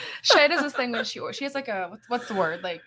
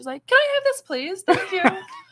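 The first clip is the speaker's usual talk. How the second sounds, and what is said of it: Prim put-on British accent. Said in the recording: “like a proper voice when she's like ordering her food ... British accent she throws in there.”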